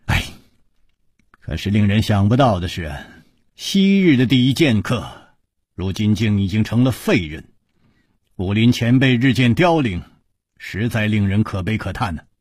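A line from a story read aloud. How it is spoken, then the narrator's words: Long sigh. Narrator (Chinese): 楚留香长叹说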